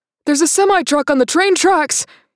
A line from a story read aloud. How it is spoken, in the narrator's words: hollered